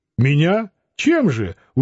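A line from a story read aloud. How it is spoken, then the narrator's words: Surprised, fervent exclamation. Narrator (Russian): удивленный с жаром воскликнул Лютов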